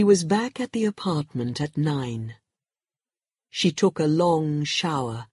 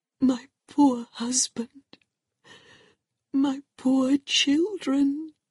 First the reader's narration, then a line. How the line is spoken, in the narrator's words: Marina cried softly